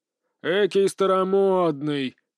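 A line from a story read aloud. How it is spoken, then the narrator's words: Robot chuckling. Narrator (Russian): хохотнул робот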